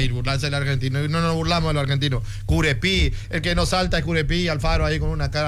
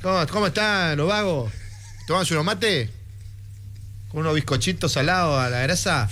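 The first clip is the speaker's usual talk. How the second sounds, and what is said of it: Put-on Argentine Spanish accent. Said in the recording (Spanish): “va a tener acento curepil ... eso es burlarse del argentino”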